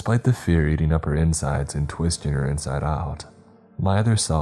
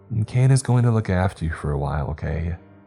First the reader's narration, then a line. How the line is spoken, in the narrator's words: she chuckled, and in a more serious tone